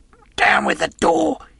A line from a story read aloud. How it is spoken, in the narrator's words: he cried